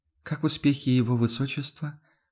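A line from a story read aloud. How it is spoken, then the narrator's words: Soft inquiry. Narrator (Russian): Мягко поинтересовалась Эдельхайда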